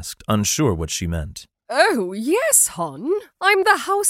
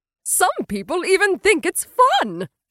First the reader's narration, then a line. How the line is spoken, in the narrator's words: she said, cheerfully